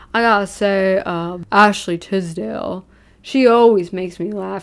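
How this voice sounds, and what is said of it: Put-on Elvis-style drawl. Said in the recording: “in his, like, now Elvis accent.”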